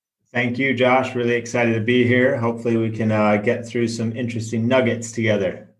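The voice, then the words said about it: American accent. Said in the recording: “based on your American accent”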